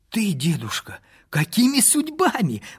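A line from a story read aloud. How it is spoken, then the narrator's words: Exclamation. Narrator (Russian): воскликнул я, увидав Чехробарина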